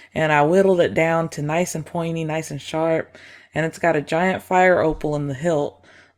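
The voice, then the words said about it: Put-on rural Southern country accent. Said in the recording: “loving this accent too. Like, y'all must be from Old Town Road? Well, down there? Down the holler?”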